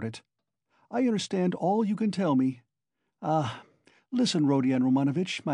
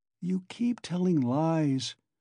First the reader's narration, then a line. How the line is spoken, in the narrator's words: he said slowly and weakly